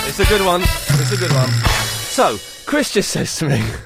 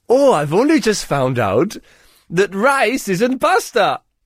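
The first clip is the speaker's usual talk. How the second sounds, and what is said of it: Put-on Welsh accent. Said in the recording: “What accent was that? ... It was Welsh, and you know it was.”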